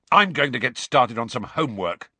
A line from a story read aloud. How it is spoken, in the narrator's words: said Ron angrily